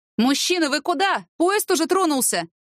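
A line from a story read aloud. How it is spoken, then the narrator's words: Shouted, female conductor. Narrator (Russian): крикнула ему проводница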